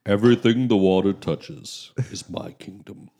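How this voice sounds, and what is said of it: Mufasa impression, deep regal voice. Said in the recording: “It sounded kind of like Mufasa. ... That was actually really good.”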